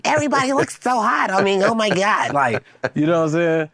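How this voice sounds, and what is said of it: Imitated white girl voice. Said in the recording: “that's your white girl impression”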